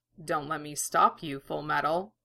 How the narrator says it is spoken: Mustang a small smile curved his lips and he murmured

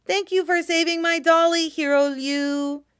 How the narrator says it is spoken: she says in a sweet voice, pretending to be Luo Binghe

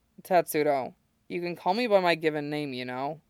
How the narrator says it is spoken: he mumbles, sleepy sort of affection in his voice

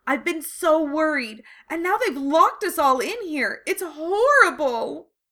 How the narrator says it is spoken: she finished in a wail

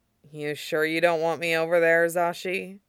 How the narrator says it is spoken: He mumbled

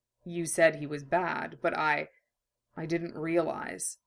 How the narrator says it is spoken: Mace murmured, green eyes deep with sadness

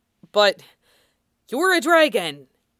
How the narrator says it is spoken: Saluen blurted out, because it was impossible

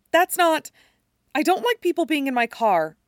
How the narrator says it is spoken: blurts the words out suddenly

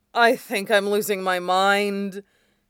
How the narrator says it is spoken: Jiang Cheng, located somewhere further away on the field, said, his voice sounding strangled

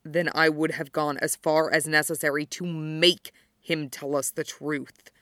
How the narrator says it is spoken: he hissed, with such poison

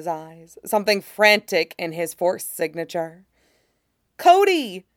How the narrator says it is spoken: the boy exclaims, all relief

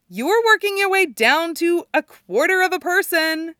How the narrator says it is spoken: Erica laughs and yells

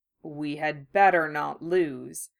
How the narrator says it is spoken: he murmured

